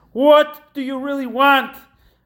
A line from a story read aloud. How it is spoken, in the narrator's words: we have to scream the answer